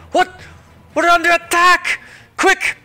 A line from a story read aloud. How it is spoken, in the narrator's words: somebody shout